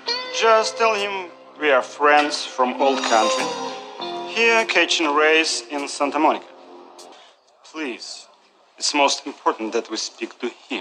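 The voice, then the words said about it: Thick Eastern European accent. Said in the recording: “they've got this thick Eastern European accent.”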